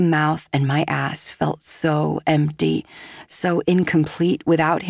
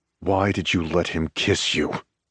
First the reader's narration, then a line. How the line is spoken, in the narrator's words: He asks quietly, his tone rough